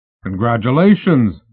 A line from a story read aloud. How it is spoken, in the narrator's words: he shouted